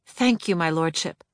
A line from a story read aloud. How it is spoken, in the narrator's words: When the suffering he imposed on me was too great, I murmured